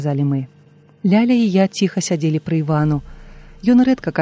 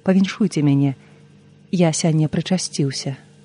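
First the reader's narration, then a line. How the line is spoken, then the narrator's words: Quiet, solemn. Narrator (Belarusian): Іван сказаў ціха і ўрачыста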